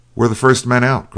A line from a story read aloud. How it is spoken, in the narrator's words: cried the officer